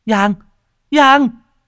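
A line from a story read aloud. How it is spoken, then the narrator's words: Urgent calling out. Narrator (Vietnamese): Cô vội vã, miệng kêu lên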